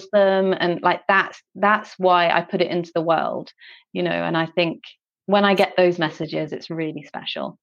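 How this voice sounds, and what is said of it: English accent, not Scottish. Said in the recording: “I live in Scotland now, but I'm from England. Okay. Do you notice that I don't have a Scottish accent?”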